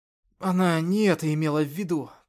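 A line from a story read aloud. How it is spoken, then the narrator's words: Through clenched teeth. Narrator (Russian): процедил Артем сквозь сжатый рот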